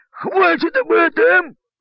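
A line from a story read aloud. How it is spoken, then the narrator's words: Captain barking. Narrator (Russian): гаркнул капитан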